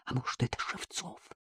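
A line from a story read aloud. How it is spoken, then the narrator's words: Breaking voice, near whisper. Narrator (Russian): Голос его внезапно сорвался, и Артем произнес почти шепотом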